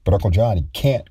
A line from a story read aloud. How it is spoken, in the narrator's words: cried Patrick, less in protest than as a plea